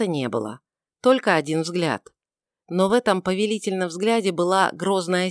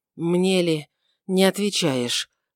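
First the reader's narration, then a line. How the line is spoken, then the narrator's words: Hoarse, trembling, emotional voice. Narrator (Russian): произнес хриплым и дрожащим от избытка чувств голосом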